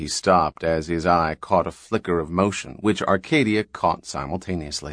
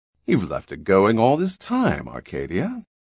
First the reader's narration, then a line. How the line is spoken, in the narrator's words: He said sweetly